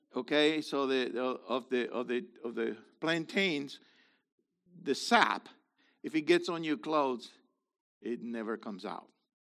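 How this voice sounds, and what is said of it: Lasting Spanish-influenced accent. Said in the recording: “You'd think that there was enough time to loosen the accent.”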